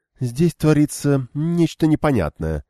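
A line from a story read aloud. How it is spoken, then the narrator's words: Proclaiming. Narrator (Russian): провозгласила она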